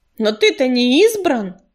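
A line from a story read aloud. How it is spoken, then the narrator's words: Snapping retort. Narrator (Russian): огрызнулся грачик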